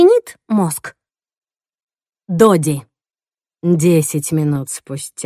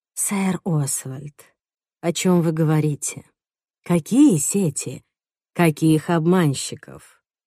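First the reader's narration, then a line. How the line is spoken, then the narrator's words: Whispered. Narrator (Russian): зашептал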